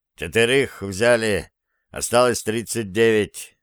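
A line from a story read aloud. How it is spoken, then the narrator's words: Grim conclusion. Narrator (Russian): закончил он мрачно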